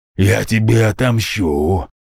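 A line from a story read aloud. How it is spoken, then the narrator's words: Growled. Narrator (Russian): прорычал тот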